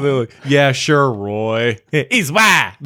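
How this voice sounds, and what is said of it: Imitates another person's voice. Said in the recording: “my impersonation”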